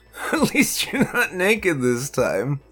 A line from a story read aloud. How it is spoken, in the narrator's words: I laughed